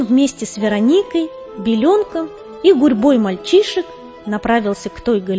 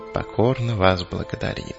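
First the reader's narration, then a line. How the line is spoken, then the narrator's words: Dwarf's mumble. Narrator (Russian): пробормотал гном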